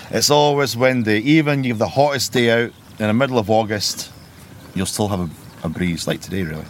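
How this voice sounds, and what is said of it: Slightly softened Scottish Borders accent. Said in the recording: “your accent's not local ... I'm from the Scottish Borders, just outside Melrose ... you kept your accent ... it sounded a bit watered down”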